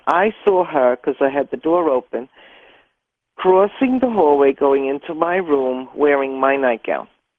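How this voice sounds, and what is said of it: New York City accent. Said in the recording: “love your accent. You're definitely from New York City.”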